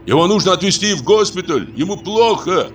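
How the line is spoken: Shouted. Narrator (Russian): Кто-то закричал

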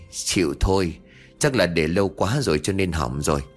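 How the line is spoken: Sighing resigned voice. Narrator (Vietnamese): Thiên thở dài

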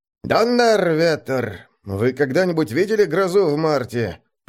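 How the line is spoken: Grumbling amid crowd noise. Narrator (Russian): проворчал кто-то под навесом сквозь общий гомон

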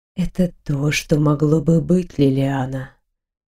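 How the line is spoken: Low voice, dark longing. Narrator (Russian): ответил Грегор низким голосом, полным темной жажды

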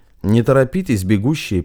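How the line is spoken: Ordinary yet chilling tone. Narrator (Russian): произнес Федор Иванович обыденным тоном, но так, что у Матвея свело скулы

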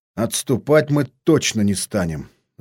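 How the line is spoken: Thoughtful mutter. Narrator (Russian): задумчиво пробормотал Степан

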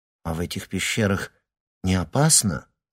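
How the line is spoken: Timid question. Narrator (Russian): робко спросила Вероника Леонова

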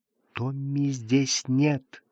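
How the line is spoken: Whispered. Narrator (Russian): шепотом сказала она

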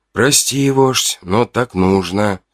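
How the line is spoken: Whispering to oneself. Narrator (Russian): прошептал я скорее для самого себя

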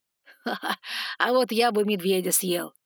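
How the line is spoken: Laughing dragon. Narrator (Russian): хохотнул дракон

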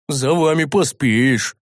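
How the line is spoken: Big man's grumble. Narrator (Russian): проворчал здоровяк

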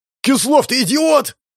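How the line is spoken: Yelling. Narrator (Russian): заорал Петр

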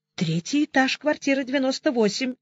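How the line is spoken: Muttering. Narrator (Russian): пробормотала секретарша

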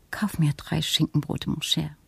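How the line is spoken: Soft delicate female voice. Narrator (German): Mit ihrer zarten Stimme sagte sie

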